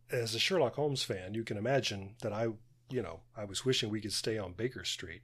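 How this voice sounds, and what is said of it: American accent. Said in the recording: “they heard my accent and said, let's give them the American version”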